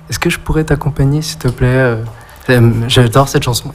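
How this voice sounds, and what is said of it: Shy, timid voice. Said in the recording (French): “avec une voix toute timide”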